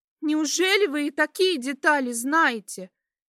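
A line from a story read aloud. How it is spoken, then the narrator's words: Cried out. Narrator (Russian): выкрикнула Камилла, поняв, что терять, по сути, больше нечего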